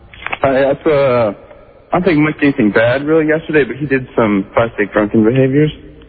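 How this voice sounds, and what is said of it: Slurred speech. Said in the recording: “Do you sound drunk? You're slurring. ... You're slurring. Do you always slur?”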